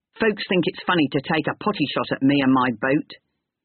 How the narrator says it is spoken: said Sir Harry

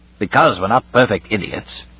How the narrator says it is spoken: said Weston gruffly

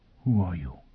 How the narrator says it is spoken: Foyle whispered

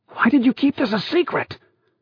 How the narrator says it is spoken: Thorby whispered savagely to Garsh

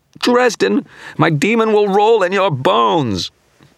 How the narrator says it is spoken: broke off into a scream of anguish

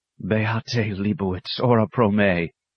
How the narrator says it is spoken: whispered Brother Francis

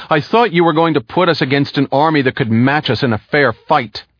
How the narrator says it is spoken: Wigan shouted at him

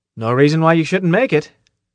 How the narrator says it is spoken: Carl said quickly

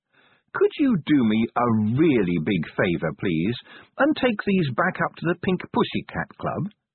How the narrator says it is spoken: she said sweetly

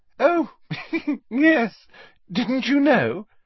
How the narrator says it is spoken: said Hermione, with a most un-Hermione-ish giggle

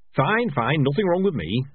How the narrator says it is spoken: snapped

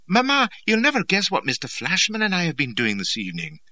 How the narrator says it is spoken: remarking happily

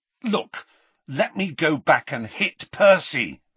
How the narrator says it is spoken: he said loudly to Hermione

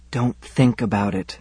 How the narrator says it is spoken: whispered

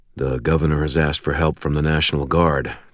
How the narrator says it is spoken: Thomas said quietly

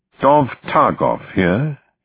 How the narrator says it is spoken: he said in a crisp Oxford accent

